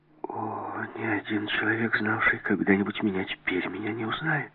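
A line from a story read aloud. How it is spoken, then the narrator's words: Mutter. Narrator (Russian): пробормотала Жанна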